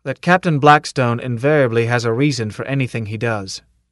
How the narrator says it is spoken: he answered stiffly

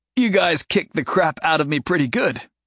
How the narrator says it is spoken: Jason groaned

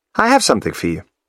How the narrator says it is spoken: Effie says, brightly

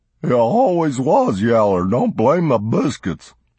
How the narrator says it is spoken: Heifer retorted in his sobbing, hysterical speech

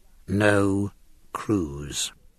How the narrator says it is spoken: the whisper ran

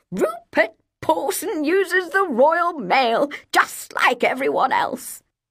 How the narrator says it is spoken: Nia laughed

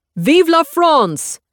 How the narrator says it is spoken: screams

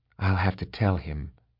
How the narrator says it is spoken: said quietly

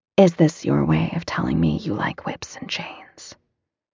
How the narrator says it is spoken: He laughs huskily

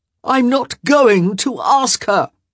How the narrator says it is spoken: Cavender whined

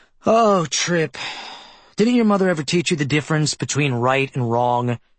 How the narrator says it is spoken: Hawkins sighed, too

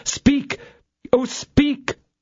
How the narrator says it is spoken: exclaimed the young officer

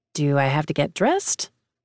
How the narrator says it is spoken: He scoffs

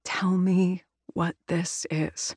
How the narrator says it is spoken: she whispers

